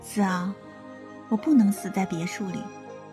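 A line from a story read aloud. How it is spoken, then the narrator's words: Faint smile. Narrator (Chinese): 江盼月淡淡一笑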